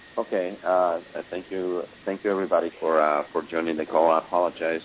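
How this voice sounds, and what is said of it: Rough, hoarse sick voice. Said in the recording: “My voice is a little bit rough. I'm a little bit sick today.”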